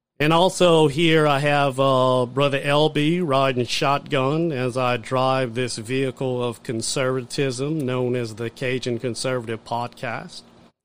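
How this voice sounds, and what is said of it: Redneck Southern accent. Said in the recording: “I think I just have uh, more of that redneck accent.”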